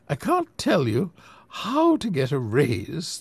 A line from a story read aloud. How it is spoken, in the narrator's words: the old lady smiled sweetly